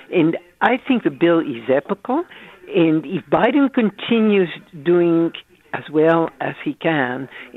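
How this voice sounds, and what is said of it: French-Italian accented English. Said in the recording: “You can see from my accent that I wasn't born here. I'm French and Italian”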